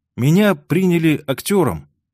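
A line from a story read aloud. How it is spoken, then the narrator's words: Uncertain. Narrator (Russian): неуверенно произнес Карл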